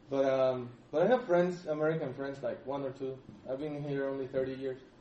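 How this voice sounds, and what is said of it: Thick Hispanic accent. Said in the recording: “I hang out only with the Hispanic community, so I have a thick accent.”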